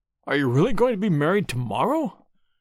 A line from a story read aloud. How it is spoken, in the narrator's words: He exclaimed, his sallow face twitching nervously